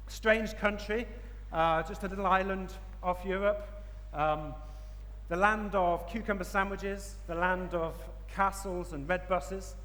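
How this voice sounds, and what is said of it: English accent. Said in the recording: “As you can probably tell from my accent, I'm from England.”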